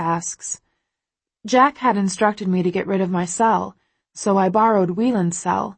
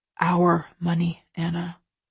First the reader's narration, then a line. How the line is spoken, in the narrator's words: he says quietly